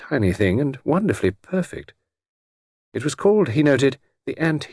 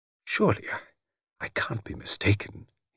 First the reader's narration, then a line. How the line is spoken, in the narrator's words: murmured